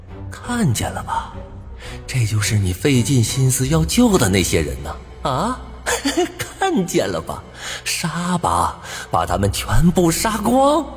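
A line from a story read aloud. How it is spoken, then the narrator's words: Slow, emphatic, word by word. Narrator (Chinese): 一字一顿的说道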